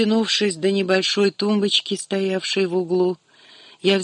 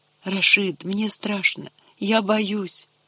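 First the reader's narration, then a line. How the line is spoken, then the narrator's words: Whispered. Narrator (Russian): прошептала я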